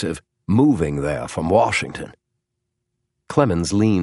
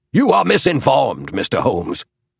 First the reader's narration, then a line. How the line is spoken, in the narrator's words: barked Clemens, his face growing dark